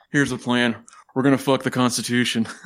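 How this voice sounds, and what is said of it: Imitates another person's voice. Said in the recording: “Not a bad Nicolas Cage impression.”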